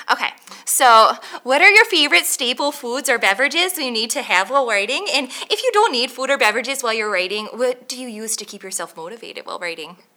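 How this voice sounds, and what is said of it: Put-on Minnesota accent. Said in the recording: “I'm going to give you one because it's fun ... That's a pretty good Minnesota accent. ... But it's a little UP-ish.”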